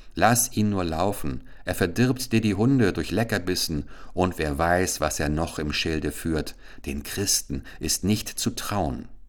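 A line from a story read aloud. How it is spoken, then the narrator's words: Old woman speaking. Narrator (German): die Alte sprach stets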